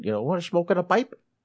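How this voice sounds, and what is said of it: Crazy accent imitating a movie character. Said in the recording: “Goldmember with all his crazy accent?”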